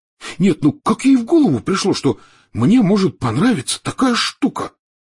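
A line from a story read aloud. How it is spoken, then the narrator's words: Shocked exclamation. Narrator (Russian): потрясенно воскликнул Рон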